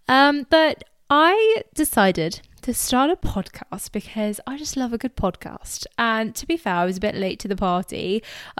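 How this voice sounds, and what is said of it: English accent. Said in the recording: “I'm from England, if you couldn't tell from my voice.”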